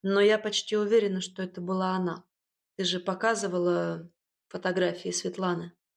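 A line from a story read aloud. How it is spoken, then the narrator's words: Mother's sigh. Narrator (Russian): вздохнула мама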